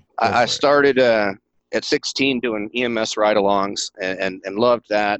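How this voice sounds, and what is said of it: Country East Tennessee accent. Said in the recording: “this is back in East Tennessee. In case y'all can't pick up my country accent”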